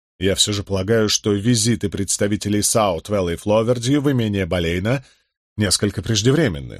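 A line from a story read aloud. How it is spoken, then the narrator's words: Plain. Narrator (Russian): сказал я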